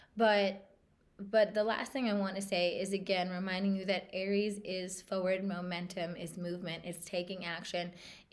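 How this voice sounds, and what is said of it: Hoarse, congested voice. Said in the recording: “Sorry for my voice right now. I'm like getting over a sinus thing and it's like in my throat.”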